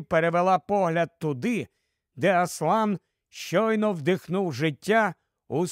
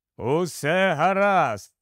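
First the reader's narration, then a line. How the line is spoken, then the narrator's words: Joyful. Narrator (Ukrainian): радісно вищирився Аслан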